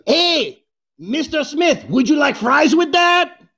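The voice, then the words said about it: Imitated Mexican accent. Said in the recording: “I can do an impersonation of a Mexican at a golf club. Here it goes.”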